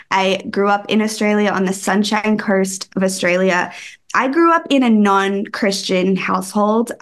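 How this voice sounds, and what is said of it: Australian accent. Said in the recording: “I am from Australia. If you can't tell by my accent, some people can say that they don't hear it anymore, that don't really sound Australian, but I'm Australian.”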